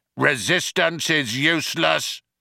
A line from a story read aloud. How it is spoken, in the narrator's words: the guard shouting again